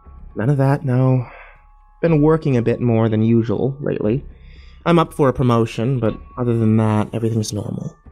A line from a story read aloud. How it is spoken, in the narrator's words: Mallory sighed with a mild disgust and said